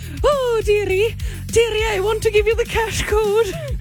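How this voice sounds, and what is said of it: Mrs. Doubtfire character voice. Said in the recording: “like Mrs. Doubtfire”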